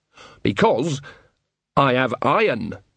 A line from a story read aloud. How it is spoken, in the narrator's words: said Nanny, her voice suddenly sharp